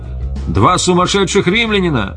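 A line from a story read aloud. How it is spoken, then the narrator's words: Warning shout. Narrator (Russian): Кто-то из всадников предупреждающе крикнул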